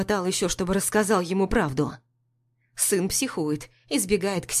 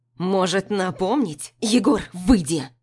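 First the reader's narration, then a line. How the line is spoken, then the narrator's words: Angry shout. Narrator (Russian): Кричу зло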